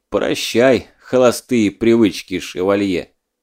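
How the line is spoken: Muttered hmph to himself. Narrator (Russian): хмыкнул про себя Скуратов

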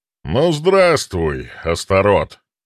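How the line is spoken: Loud. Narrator (Russian): громко произнес предтеча

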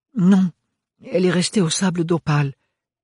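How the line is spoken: Stammering. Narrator (French): bredouilla Ophélie

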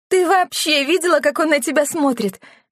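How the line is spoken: Laughing. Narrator (Russian): рассмеялась Оливия

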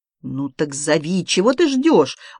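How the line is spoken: Angry reply. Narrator (Russian): уже сердито ответила Полина Степановна

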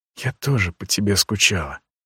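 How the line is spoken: Whisper. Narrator (Russian): прошептала она

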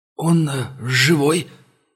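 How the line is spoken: Strained, forced words. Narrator (Russian): с трудом выдавил монгол

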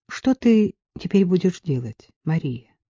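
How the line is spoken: Plain. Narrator (Russian): спросил отец

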